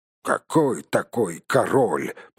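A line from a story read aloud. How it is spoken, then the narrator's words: Muttering. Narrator (Russian): пробурчал другой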